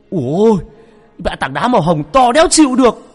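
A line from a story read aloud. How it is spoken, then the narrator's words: Yelling. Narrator (Vietnamese): Cái thằng mất dạy Cường nó gào lên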